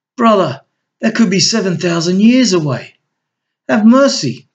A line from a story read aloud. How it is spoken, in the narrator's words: pleaded Natus anxiously